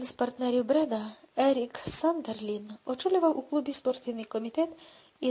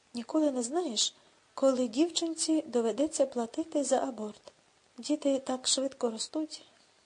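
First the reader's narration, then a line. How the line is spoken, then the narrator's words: Calm reply. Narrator (Ukrainian): на протести Рудольфа з приводу його марнотратства спокійно відповів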